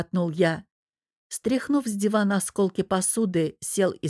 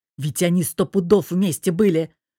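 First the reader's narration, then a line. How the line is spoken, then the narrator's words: Grumbling. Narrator (Russian): продолжил ворчать Богдан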